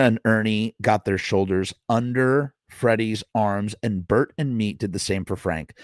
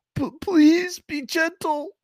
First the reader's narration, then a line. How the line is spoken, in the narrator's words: begged Freddy